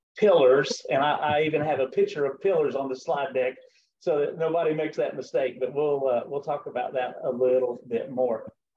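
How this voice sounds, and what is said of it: Southern American accent. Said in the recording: “my Southern accent”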